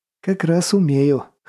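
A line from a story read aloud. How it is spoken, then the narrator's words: Snorting. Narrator (Russian): хмыкнул Головин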